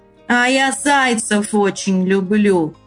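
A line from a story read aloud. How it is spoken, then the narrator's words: Wolf's growl. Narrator (Russian): зарычал волк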